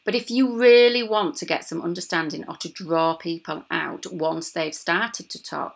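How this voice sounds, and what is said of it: Yorkshire accent. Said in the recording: “me Yorkshire accent”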